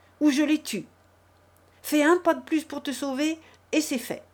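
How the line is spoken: Shouting. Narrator (French): lui cria-t-il

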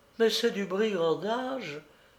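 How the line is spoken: Moaning. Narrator (French): gémit Avdotia

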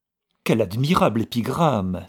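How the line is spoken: Flattering Irishman exclaiming. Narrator (French): s'écria l'Irlandais, dont la flatterie était la seconde nature

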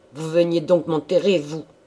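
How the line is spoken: Old man growling gruffly. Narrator (French): gronda le vieillard rudement

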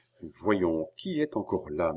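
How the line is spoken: Murmured. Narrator (French): murmura-t-il

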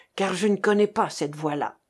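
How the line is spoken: Low voice. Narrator (French): dit Vernier à voix basse

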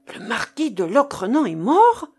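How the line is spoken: Choked cry, sailor. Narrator (French): s'écria le marin d'une voix étranglée

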